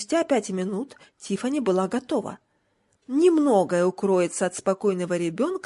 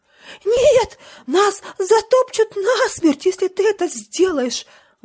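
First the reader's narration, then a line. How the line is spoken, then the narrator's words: Exclamation. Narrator (Russian): воскликнул жаб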